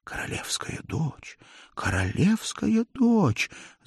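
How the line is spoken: Whispering prisoners. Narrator (Russian): зашептали пленники Тандерделя

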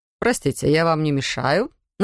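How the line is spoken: Mocking inquiry. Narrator (Russian): насмешливо поинтересовался мастер Декван

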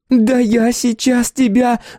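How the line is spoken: Shrill squeal. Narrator (Russian): взвизгнула Наташа

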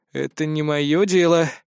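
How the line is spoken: Muttering. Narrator (Russian): пробормотал я

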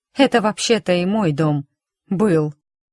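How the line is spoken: Grumbling. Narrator (Russian): проворчала я

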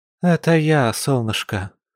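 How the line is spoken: Tired mother confirming. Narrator (Russian): устало подтвердила родительница

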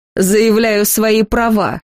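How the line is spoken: Mocking reply. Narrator (Russian): насмешливо отозвался брюнет

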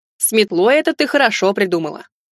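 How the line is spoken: Suddenly angry remark. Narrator (Russian): Неожиданно зло заметил он

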